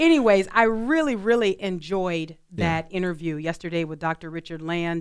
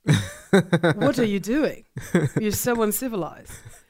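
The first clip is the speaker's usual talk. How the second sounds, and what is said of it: Put-on British accent. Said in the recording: “I always hear them in my mind with a British accent.”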